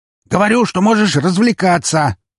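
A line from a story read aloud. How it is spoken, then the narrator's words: Shouting into phone. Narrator (Russian): прокричал Броницкий в трубку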